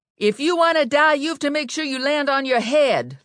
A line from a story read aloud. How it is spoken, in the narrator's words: Lula yelled up to Ginny